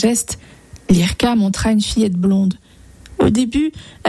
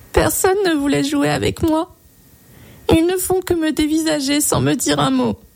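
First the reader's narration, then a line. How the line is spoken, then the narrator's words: Little girl sobbing. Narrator (French): sanglota la petite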